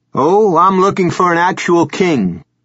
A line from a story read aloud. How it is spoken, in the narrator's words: Gansey said, speaking loudly to be heard over the violin